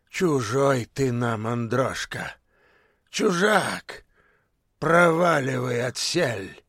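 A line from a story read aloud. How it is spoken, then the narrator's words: Parting growl. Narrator (Russian): Прорычал напоследок он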